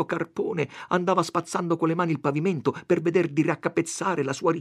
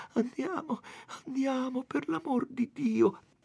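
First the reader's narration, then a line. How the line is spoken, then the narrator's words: Faint, pleading voice. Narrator (Italian): Lucia chiamava Renzo con voce fioca e diceva pregando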